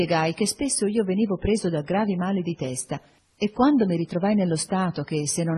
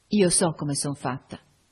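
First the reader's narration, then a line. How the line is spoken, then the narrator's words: Plain. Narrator (Italian): disse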